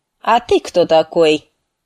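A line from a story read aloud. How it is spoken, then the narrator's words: Commanding. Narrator (Russian): спросил он командным тоном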